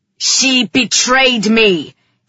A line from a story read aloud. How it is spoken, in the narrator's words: he roared